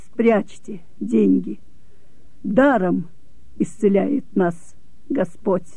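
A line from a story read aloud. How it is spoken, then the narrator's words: Quiet, irritated. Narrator (Russian): не сумев досады превозмочь, я сказала тихо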